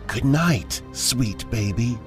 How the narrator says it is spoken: it whispered in a female voice

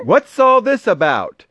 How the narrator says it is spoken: the people came shouting

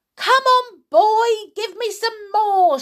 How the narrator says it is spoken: yelled

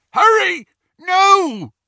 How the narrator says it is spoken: a voice yelled

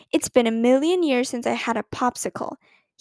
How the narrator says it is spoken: he said

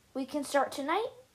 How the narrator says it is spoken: Olaf asked

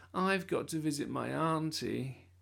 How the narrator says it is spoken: said Eugene gloomily

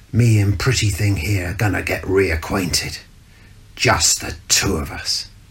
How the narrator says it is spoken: he hissed

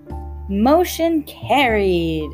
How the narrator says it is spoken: screeched Beth Ellen in a fit of helpless giggles

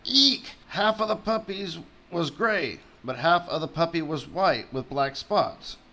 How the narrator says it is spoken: Cruella cried

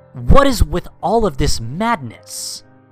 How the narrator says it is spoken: Donald Duck walks into the scene and yells

